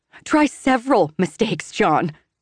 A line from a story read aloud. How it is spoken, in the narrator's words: I shout, baffled by his nerve